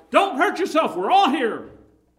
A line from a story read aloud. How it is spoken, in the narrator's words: he cried out